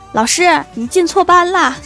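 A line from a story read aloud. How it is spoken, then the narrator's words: Shout from behind. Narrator (Chinese): 后面有人喊了一句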